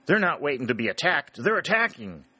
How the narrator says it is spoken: cried Harry

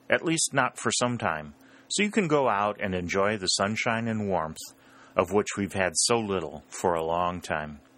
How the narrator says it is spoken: said the general in his usual kindly tone

